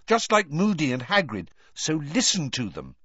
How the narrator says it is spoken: said Hermione sharply

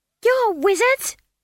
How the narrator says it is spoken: she screamed

